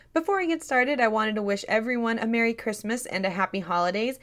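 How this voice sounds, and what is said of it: Tired, slightly raspy voice. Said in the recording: “My voice might sound a little tired today and a little raspy ... my voice is a little bit tired ... if my voice sounds a little raspy and tired”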